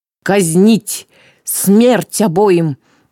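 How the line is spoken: Furious roaring ruler. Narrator (Russian): точно разъяренный зверь взревела правительница

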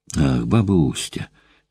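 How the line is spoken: Sudden sad sigh. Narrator (Russian): неожиданно грустно вздохнула Ксения

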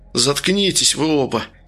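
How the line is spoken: Furious whisper. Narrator (Russian): яростно шептал третий

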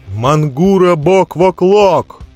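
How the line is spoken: Loud shout. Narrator (Russian): еще раз громко выкрикнул Дзирт

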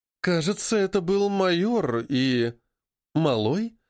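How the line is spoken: Sighing. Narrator (Russian): вздохнула Дженни

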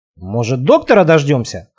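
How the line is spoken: Snorting. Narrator (Russian): хмыкнул Марк

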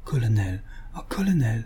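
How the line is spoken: Deeply moved murmur. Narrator (French): Elle murmura, très émue

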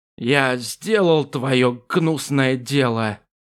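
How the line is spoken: Hoarse hunter. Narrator (Russian): прохрипел охотник

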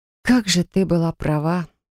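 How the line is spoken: Sighing. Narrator (Russian): вздохнула

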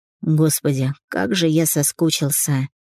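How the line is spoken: Whispered into her ear. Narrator (Russian): прошептал он ей на ухо

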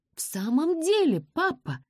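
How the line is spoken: Exclaimed. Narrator (Russian): воскликнула Розамунда

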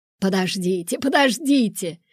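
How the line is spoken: Lively exclamation. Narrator (Russian): живо воскликнул Виктор

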